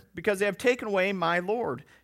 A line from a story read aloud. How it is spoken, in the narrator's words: she replied